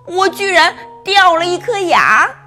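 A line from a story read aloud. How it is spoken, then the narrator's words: Little mouse crying out. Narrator (Chinese): 小老鼠叫道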